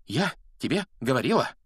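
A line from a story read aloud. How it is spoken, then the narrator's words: Breathless gasp. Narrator (Russian): выдохнула Гермиона, держась обеими руками за грудь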